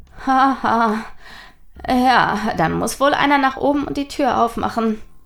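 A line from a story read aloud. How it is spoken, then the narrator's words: Nervous laugh. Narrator (German): lachte Nathaniel nervös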